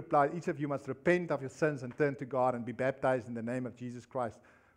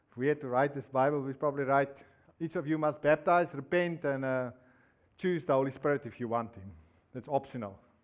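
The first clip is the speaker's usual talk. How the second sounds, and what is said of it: Sarcastic tone. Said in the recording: “I'm being sarcastic”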